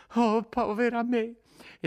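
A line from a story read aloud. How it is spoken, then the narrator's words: Exclaimed sobbing. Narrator (Italian): esclamò di nuovo singhiozzando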